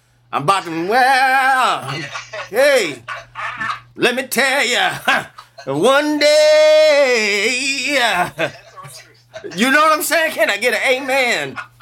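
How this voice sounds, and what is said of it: Preacher voice. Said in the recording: “I got my preacher voice on.”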